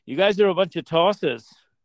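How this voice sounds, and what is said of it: Put-on Australian accent. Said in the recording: “you're supposed to practice your Australian accent”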